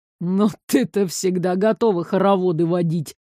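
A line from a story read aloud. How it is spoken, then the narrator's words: Hostile snort. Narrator (Russian): неприязненно хмыкнул огонь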